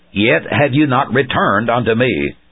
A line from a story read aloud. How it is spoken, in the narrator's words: says the Lord